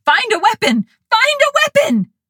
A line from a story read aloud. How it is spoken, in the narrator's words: yelled